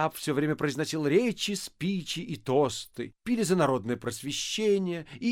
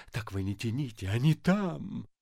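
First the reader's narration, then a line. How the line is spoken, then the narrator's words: Whispered. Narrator (Russian): шепнул Бендеру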